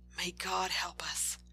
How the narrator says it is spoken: the teacher nearby whisper

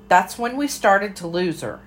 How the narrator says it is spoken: Aunt Vera cried

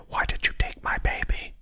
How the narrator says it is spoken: what sounded like a woman whispering

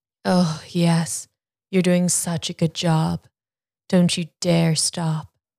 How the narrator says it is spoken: Julia moaned

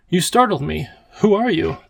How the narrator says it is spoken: The professor sighed

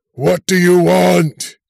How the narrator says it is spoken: the rock man screamed

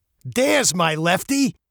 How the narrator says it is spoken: Coach barked

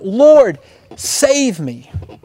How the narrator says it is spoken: When Peter began to sink, he cried out

